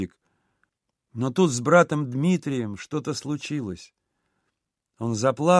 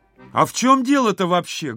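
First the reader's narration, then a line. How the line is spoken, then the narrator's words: Loud question. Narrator (Russian): громко спросил он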